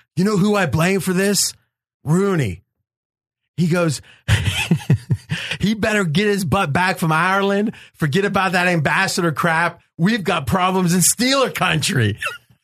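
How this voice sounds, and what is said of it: Pittsburgh accent. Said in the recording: “your accent came out there a little bit. You went a little Pittsburgher.”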